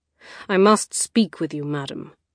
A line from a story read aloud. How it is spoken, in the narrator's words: he said, his tone dark and full of warning